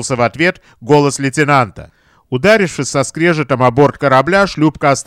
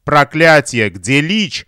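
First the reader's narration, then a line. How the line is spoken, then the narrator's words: Booming. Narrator (Russian): прогремел сэр Генри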